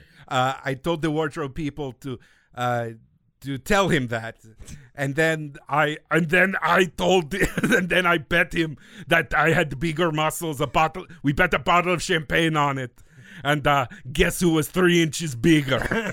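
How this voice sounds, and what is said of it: Put-on Austrian accent, imitating someone. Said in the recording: “my Austrian accent is weird and nonsensical”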